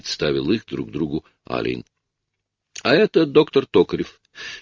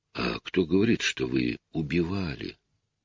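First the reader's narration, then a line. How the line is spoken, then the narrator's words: Weary objection. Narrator (Russian): устало возразил Алин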